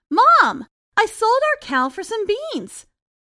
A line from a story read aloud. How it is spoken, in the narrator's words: Jack excitedly told his mother